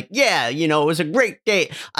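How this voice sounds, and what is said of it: Stereotypical put-on accent. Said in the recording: “that really stereotypical accent.”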